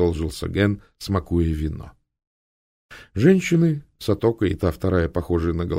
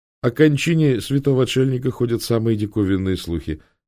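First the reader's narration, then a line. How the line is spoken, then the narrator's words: Plain. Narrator (Russian): сказал он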